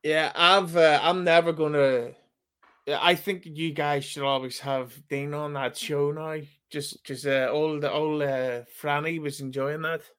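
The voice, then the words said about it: Throaty regional accent. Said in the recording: “my accent ... I always sound like I need to fucking hawk up as greener”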